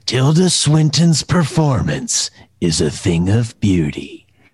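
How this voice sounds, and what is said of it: Movie trailer narrator voice. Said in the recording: “your impression of the trailer of The Deep End”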